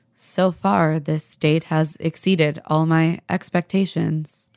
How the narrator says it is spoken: Joe is as hyped as Joe can be, which is him saying in a deeply monotone voice

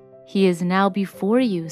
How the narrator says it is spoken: said the prince

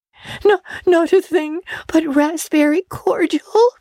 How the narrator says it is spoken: sobbed Anne

